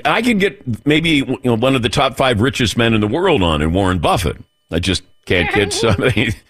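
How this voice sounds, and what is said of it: Imitates another person's voice. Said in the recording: “I love that impersonation.”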